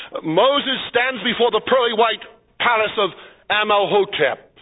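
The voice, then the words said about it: Brooklyn accent. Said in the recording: “That's with a Brooklyn accent.”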